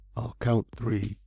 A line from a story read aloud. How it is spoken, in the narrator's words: he whispered in the utter silence